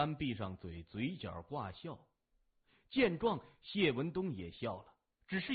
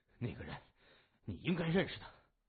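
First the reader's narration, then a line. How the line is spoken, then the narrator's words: Heavy panting. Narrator (Chinese): 老三喘着粗气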